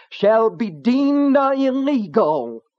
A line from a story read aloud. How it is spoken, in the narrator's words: cried